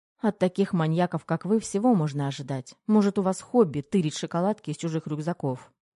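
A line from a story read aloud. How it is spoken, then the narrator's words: Smirking retort. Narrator (Russian): Он хмыкнул и выдал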